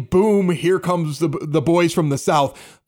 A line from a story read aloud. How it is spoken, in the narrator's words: the entire crowd is yelling